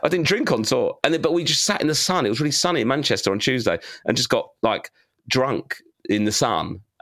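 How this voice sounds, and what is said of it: Bad, worn-out voice. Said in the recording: “my voice is bad”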